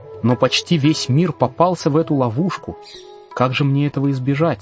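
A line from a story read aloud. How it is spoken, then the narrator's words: Plain. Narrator (Russian): спросил я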